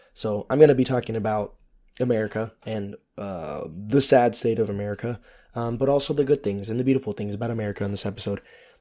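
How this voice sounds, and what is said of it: Hoarse, strained, fading voice. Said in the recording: “losing my voice ... next week my voice will be better”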